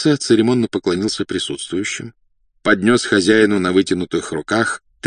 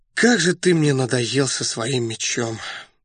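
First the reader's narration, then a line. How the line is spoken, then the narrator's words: Weary sigh. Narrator (Russian): вздохнул Раст Петрович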